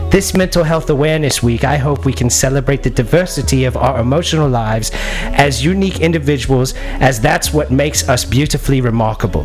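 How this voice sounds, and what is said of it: Put-on posh British accent. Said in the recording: “I thought I was in a British school... I feel like I'm being read to in class... I'm trying to get my accent right... Mary Poppins type shit”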